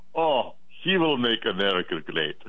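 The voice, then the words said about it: Deep Eastern European accent. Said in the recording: “a deep Eastern European accent.”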